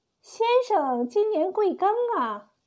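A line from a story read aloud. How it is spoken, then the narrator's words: Loud screaming. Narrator (Chinese): 温草姨竟扯着喉咙大叫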